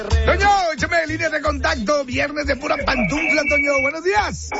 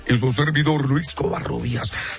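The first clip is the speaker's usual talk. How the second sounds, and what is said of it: Deep radio announcer voice. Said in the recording (Spanish): “déjeme hablar como hombre ... Se me hizo voz de locutor”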